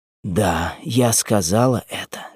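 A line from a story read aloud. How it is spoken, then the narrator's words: Whispered. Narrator (Russian): шепотом отвечала Женевьева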